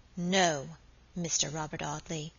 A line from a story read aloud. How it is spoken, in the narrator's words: she said aloud in a low, clear voice